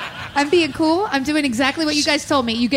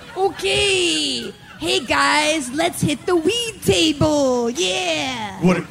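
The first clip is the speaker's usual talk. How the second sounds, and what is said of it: Put-on cool-guy accent. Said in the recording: “You gave me an accent. You gave me an attitude.”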